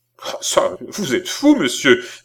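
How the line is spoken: Exclaiming. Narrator (French): s'écria Balsamo

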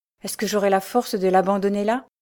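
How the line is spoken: Exclamation. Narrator (French): s'écria-t-il

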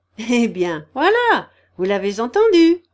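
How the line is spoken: Triumphant laughing exclamation. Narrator (French): s'écria Hippolyte avec un rire de triomphe

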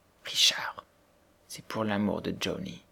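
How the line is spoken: Said very quietly. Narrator (French): elle lui dit tout bas

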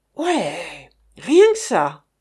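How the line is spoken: Exclaiming. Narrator (French): s'exclama cette fois Monsieur Hilaire

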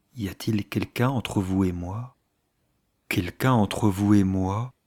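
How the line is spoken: Slow, repeating. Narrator (French): Il redisait les mots lentement

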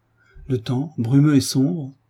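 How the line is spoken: Delighted exclamation. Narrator (French): s'écria Frédéric, regardant la futaie séculaire avec ravissement

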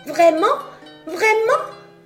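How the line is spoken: Joyful puppet exclaiming. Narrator (French): s'exclama la marionnette qui sauta de joie

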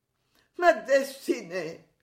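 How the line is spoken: Exclaiming with bitter laugh. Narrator (French): s'écrie-t-elle avec un rire amer

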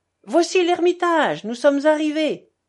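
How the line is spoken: Shouting. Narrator (French): cria Fiodor Pavlovitch

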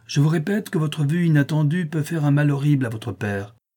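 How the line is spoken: Exclaimed. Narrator (French): s'écria-t-elle

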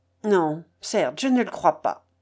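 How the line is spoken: Quick angry reply. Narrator (French): répliqua vivement et même avec colère le jeune homme

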